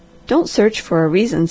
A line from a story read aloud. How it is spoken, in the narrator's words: said the Harvester, in his gentlest tones